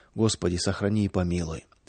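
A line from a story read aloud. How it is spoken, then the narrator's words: Villagers whispering to themselves. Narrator (Russian): Деревенские шептали про себя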